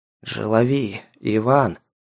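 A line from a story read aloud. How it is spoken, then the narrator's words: Hoarse, weak voice. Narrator (Russian): Сипло произнес он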